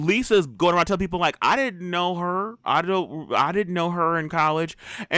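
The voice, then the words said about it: Put-on Southern accent. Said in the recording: “why do you have a Southern accent?”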